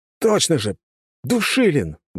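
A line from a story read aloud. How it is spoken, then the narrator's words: Sudden realization exclamation. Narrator (Russian): воскликнул я, прочитав документ о долговых обязательствах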